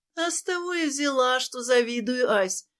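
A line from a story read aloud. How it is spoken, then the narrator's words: Sad sigh. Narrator (Russian): грустно вздохнула Катерина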